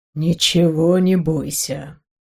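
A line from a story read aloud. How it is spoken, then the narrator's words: Quiet. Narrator (Russian): тихо сказал король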